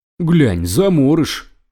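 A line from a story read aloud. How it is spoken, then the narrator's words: Fat man exclaiming. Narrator (Russian): воскликнул толстяк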